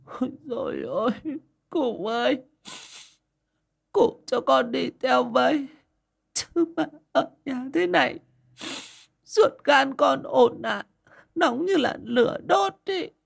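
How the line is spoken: Sobbing woman. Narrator (Vietnamese): Mụ mà nức nở

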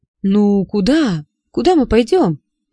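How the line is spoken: Tearful exclamation. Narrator (Russian): плачущим голосом воскликнул он

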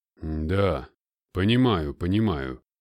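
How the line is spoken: Grumbling. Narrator (Russian): ворчал Сидельников

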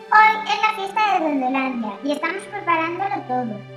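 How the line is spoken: Plain. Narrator (Spanish): contestó el duende

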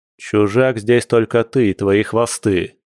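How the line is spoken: Growl. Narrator (Russian): рыкнул Дима

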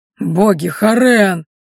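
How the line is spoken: Stunned steward's gasp. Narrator (Russian): выдохнул пораженный домоправитель

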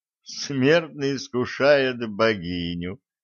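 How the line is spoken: Laughing, female warrior. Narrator (Russian): рассмеялась небесная воительница

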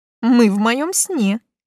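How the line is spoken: Giggle. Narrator (Russian): хихикнула я

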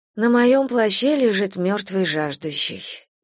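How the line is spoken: Heavy sigh. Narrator (Russian): тяжело вздохнула

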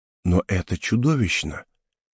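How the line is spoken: Quiet. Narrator (Russian): тихо сказала она

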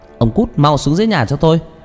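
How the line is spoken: Loud angry shout. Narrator (Vietnamese): bà trừng mắt nhìn chồng mà quát lớn

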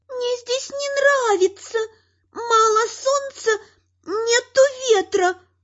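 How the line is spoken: Whining. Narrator (Russian): прохныкала Дриада

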